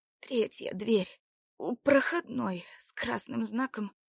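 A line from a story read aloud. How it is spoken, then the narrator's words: Barely conscious, wheezing. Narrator (Russian): Лишь на миг придя в сознание, Марина, хрипя произнесла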